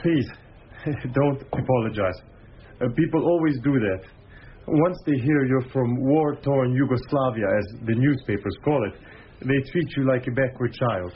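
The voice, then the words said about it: Eastern European accent, Croatian. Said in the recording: “Your accent is very Eastern. You are Russian? ... I'm Croatian.”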